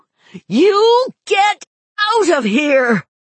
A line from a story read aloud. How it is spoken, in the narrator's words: she screamed into his face